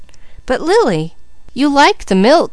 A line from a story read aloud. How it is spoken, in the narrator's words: cried Mickey